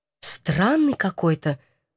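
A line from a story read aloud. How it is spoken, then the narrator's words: Whispered. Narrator (Russian): шепнула я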